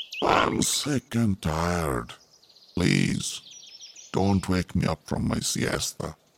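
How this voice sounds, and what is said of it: Sleepy drowsy monkey character voice. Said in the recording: “said in a sleepy voice”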